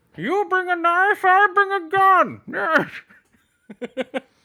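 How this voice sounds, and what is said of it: Imitates the movie villain Bane. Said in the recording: “Doing the Bane voice.”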